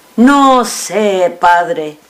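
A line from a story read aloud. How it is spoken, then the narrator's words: Plain. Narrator (Spanish): dijo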